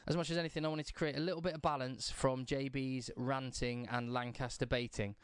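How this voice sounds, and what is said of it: Hoarse, partly lost voice. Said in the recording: “I've lost my voice a little bit from shouting last night.”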